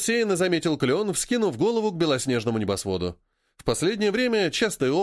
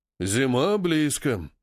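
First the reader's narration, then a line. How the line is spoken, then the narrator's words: Sighing. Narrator (Russian): вздохнул Баобаб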